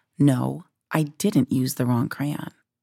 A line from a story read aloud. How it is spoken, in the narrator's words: As calmly as I could, I told